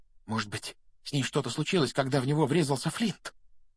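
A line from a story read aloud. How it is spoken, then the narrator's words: Whisper. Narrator (Russian): прошептал Симус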